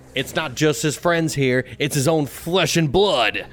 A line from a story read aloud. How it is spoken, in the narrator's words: yell